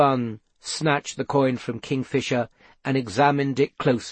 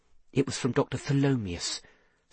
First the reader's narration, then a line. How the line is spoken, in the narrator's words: said Seth quietly